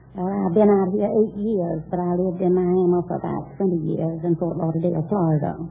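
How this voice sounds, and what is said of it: Southern US accent. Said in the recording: “I suspected you were south of the Mason-Dixon line... People in Long Beach don't have that kind of an accent.”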